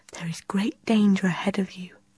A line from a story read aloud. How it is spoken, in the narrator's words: the queen whispered